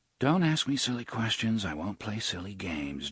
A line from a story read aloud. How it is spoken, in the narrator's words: Jake muttered